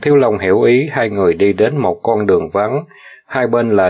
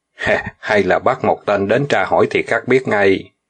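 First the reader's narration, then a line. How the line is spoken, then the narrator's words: Smiling. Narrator (Vietnamese): Đằng Dực mỉm cười nói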